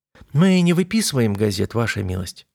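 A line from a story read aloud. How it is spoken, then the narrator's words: Soft, gentle woman. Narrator (Russian): мягко ответила женщина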